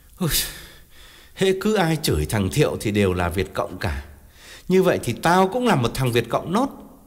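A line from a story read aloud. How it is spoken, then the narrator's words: Deep mournful sigh. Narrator (Vietnamese): Ông thở dài não nuột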